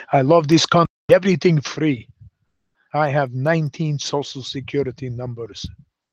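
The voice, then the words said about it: Put-on Russian accent. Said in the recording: “speak with a foreign accent ... What kind of accent do you need? You need Russian?”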